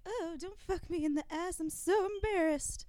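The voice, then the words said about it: Impression of a gay man's voice. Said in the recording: “impression ... Of a gay boy. ... That's your impression of a gay boy acting straight.”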